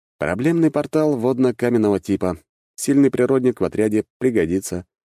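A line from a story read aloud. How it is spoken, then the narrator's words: Calm reply. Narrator (Russian): спокойно ответил я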